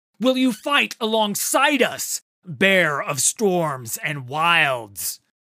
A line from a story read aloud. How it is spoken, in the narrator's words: Udyr shouted